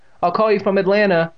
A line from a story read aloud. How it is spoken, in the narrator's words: she shouted as she disappeared down the stairs